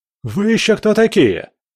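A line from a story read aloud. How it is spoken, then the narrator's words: Yelled. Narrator (Russian): заорал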